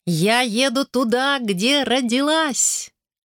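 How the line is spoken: Shouted. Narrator (Russian): крикнула

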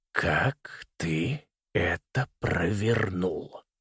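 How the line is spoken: Very quiet, grandfather. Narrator (Russian): спросил дедушка очень-очень тихо

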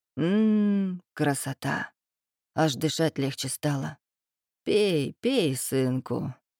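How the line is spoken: Old woman's changed voice. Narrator (Russian): Совсем другим голосом произнесла бабка Стефа

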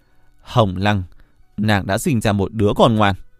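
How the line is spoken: Loud laughter. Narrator (Vietnamese): Diệp Hàng cười lớn

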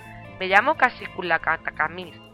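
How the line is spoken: Plain. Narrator (Spanish): contestó este

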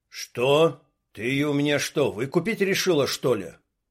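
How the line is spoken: Rude question. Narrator (Russian): Уже грубо спросил Дима

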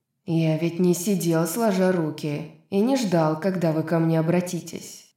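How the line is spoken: Plain. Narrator (Russian): сказал Аидос

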